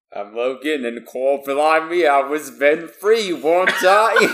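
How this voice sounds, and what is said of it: Slight Cockney-tinged accent. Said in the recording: “was hinged on Cockney there.”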